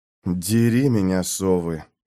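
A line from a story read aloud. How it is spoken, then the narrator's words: Muttered. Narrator (Russian): пробормотал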